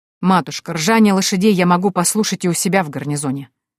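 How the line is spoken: Cold. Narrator (Russian): холодно произнес генерал

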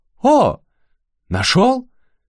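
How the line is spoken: Sudden exclamation. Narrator (Russian): Ю посерьезнел, неожиданно воскликнул

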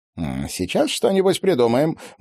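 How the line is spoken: Cheerful promise. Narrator (Russian): бодро пообещал Вениамин

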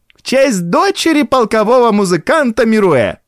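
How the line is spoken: Shrill saccharine shout. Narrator (Russian): чей-то голос пронзительно и слащаво прокричал

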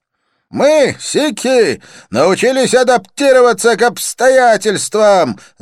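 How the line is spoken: Shouting over music. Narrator (Russian): заорал Джасван, стараясь перекричать музыку

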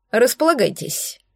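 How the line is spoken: Dry offer. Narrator (Russian): сухо предложил Эдельвирс

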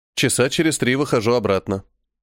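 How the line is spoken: Calm. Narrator (Russian): спокойно ответил я

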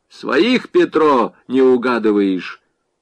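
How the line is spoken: Loud command. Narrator (Russian): Дундич громко скомандовал

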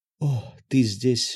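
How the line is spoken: Tired. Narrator (Russian): устало проговорила Мила

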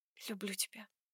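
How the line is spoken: Barely audible whisper. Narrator (Russian): Едва слышно шепчет она

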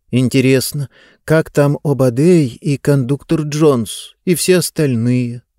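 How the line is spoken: Sad. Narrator (Russian): грустно сказала Диба

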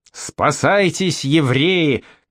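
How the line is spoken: Shout. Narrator (Russian): крикнул раввин

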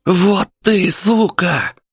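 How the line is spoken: Lisping spluttering shout. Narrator (Russian): крикнул шепелявый, брызжа слюной

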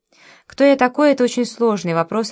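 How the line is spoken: Forced even tone. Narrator (Russian): ответил он, стараясь говорить ровным голосом

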